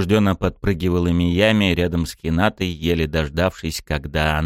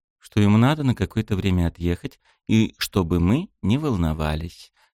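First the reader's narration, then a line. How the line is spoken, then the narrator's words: Calm reply. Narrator (Russian): спокойно ответила та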